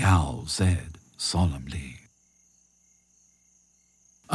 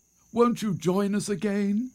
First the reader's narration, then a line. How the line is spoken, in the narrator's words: they begged